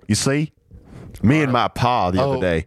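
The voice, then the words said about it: Put-on Southern US drawl. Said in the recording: “you got to talk like this ... just like down by the Mississippi River”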